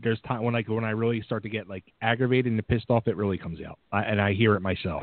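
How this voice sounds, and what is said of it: Philadelphia Italian-American accent. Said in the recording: “You have an accent, too. I can hear it. ... that Philly accent going on ... The real Philly Italian accent”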